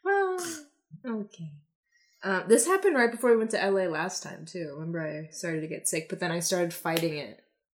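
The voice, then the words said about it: Slightly nasal, under-the-weather voice. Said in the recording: “I'm feeling a little ill, a little under the weather ... my voice sounds a little nasally”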